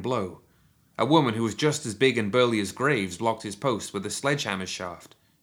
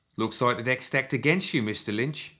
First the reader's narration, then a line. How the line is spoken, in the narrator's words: he said, in a pronounced Cockney accent